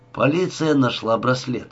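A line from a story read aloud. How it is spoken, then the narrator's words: Indifferent tone. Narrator (Russian): ответил равнодушным тоном Адам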